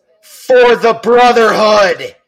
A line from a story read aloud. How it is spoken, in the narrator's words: One of them yells